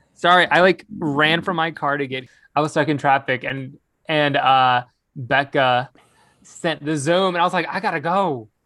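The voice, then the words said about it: Out of breath, panting speech. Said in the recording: “someone who's very out of breath”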